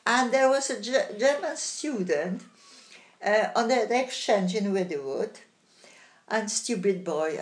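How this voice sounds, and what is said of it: Polish-accented English. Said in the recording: “I've got an accent. ... No, she's not German. She's Polish.”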